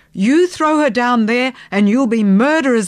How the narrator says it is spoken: I yelled

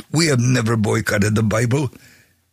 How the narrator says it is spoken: One yelled

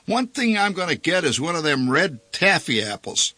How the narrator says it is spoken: Kissel shouted

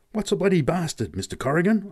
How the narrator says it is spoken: I gasped at last

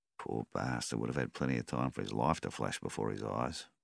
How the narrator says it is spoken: murmured Donnie

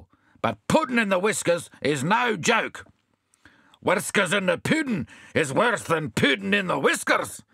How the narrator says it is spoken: shouted the puddin'

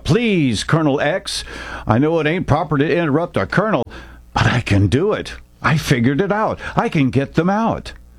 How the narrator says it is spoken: An excited Haynes blurted out

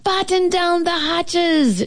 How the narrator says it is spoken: she shouted

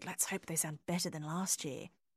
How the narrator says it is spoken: Judy turned to Myrna and whispered

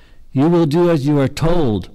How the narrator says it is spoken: her father shouted after her

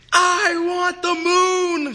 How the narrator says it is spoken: she yelled

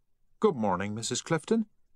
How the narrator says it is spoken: said the teller, cheerfully

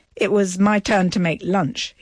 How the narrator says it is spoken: he says

